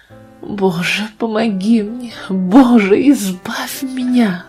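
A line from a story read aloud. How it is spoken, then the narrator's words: Pale-lipped moaning. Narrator (Russian): стонала она белыми губами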